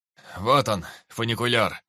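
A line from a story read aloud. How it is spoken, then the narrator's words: Joyful shout. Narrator (Russian): Радостно закричал Килмистер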